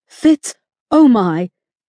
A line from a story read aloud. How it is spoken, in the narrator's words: gasped with glee